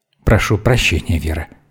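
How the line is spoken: Quiet. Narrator (Russian): так же тихо ответил Мейснер

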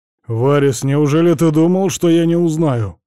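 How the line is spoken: Menacing question, serious man. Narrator (Russian): грозно спросил серьезного вида мужчина

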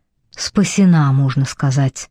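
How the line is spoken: Mumble. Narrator (Russian): пробормотала Телли

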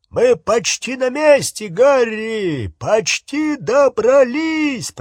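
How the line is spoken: Shouting. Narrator (Russian): прокричал Хагрид

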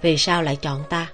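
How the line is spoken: Gentle question. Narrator (Vietnamese): Hắn nhẹ nhàng hỏi

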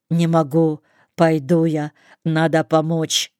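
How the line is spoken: Plain. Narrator (Russian): говорит он

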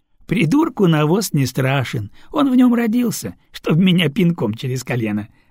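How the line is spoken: Laughing. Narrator (Russian): рассмеялся Баламестры

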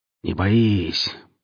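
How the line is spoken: Grumbled. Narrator (Russian): пробурчал скуластый

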